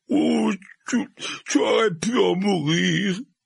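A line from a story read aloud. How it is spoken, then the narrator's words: Sobbing repetition. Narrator (French): répéta Hagrid, le corps agité de sanglots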